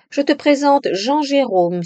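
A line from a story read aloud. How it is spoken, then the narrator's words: Exclaimed. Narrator (French): s'exclama Philippe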